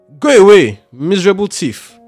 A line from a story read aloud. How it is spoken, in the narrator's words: shouted when he saw what had happened